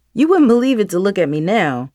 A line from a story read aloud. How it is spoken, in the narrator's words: Mom chuckled